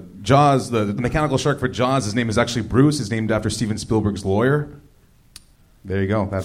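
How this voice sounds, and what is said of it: Smooth radio announcer voice. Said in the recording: “You have such a white guy radio voice, doesn't he?”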